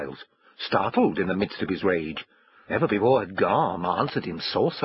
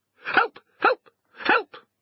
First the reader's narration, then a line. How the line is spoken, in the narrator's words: cried the dog